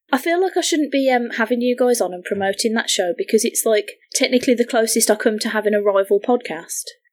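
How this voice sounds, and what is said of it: British English accent, not posh. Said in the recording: “this accent doesn't lend itself to pretty lady-ness ... mine's weird ... I like my British women a little on the trashy side”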